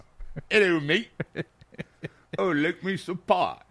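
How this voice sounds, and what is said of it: Put-on British accent. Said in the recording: “It was my British accent.”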